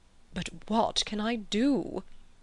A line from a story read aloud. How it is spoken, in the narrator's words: He lowered his voice